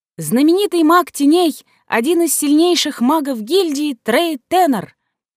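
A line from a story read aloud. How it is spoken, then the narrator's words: Announcement. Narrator (Russian): огласила Рута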